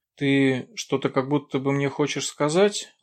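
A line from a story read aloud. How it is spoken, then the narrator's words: Affectionate. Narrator (Russian): ласково проговорила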